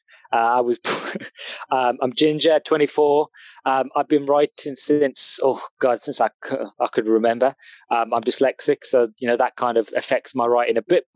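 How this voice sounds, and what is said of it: English accent. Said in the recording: “As you can tell by my accent, I'm English.”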